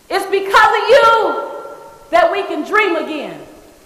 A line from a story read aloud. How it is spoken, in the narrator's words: another voice yells out